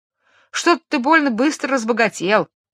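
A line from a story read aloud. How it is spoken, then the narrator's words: Wife's exclamation. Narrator (Russian): воскликнула жена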